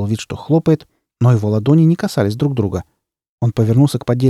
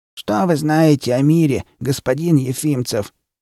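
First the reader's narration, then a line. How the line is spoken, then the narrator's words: Creaky voice. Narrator (Russian): проскрипел тот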